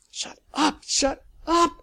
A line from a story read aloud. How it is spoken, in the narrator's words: hissed